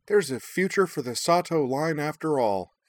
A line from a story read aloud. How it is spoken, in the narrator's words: Minami declared happily